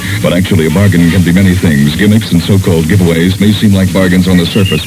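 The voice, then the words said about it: Radio announcer voice. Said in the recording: “here's my announcer voice again”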